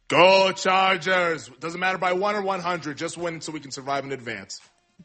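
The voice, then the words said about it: Imitates another person's voice. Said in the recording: “you did an Arnold Schwarzenegger impersonation”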